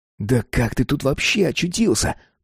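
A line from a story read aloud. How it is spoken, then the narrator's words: Whisper. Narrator (Russian): прошептал Джим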